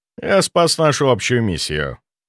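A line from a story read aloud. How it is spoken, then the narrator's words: Calm objection. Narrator (Russian): возразил спокойно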